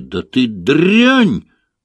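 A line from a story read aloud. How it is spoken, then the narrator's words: Yelling pig. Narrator (Russian): завопил свин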